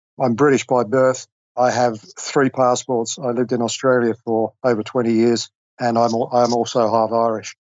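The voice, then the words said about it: Mixed British, Australian, Irish accent. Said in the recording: “this somewhat strange accent that your listeners may be wondering where I'm from ... I'm a bit of a mix”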